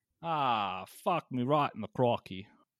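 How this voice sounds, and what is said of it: Decent put-on Australian accent. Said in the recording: “that actually wasn't that bad of an Australian accent... That one wasn't bad.”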